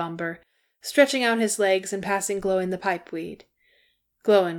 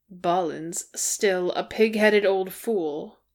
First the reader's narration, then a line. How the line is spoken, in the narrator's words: he grumbled